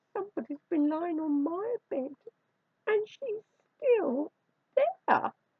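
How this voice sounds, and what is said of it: Squeaky little wailing voice. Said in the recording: “wailed Baby Bear in a squeaky little voice.”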